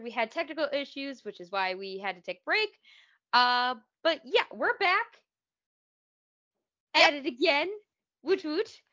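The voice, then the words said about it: Voice sounds weird, congested. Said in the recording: “hack up a lung practically ... that's why my voice sounds weird”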